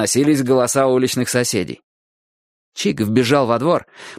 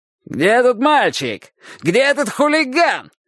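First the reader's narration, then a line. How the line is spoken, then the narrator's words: Yelling. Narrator (Russian): Орал он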